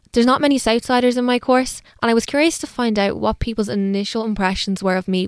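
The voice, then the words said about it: Posh South Dublin accent. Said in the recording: “I noticed your accent straight away ... you were in the D4 area, we were talking the South Side ... my judgment just would have been that you were posh”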